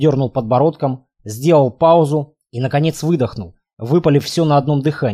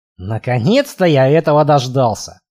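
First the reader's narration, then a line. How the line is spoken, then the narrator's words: Grumbling mutter. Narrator (Russian): пробурчал я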